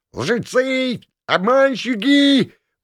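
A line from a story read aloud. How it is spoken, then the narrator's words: Frantic yowling cat. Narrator (Russian): вопил мечущийся по помещению кот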